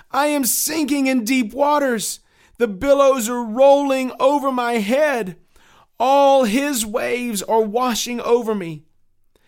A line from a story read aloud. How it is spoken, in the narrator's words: Crying out to his good friend Hopeful, he shouted